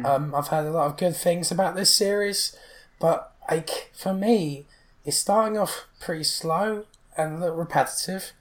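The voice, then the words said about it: Strained, fading voice. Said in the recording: “my voice is really starting to go now”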